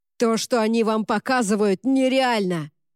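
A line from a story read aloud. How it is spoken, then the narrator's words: Roar. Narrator (Russian): взревел он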